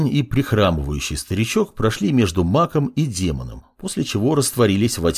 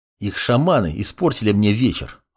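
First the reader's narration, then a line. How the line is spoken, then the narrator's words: Irritated boy. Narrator (Russian): раздраженно произнес мальчишка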